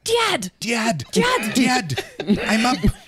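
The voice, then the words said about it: Loud yelling in a French accent. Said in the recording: “yelling "Dad" real loud ... in their French accent.”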